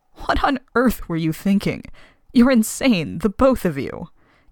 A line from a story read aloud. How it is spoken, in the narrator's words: Caroline said, roughly wiping tears away from her eyes, half scolding, half sobbing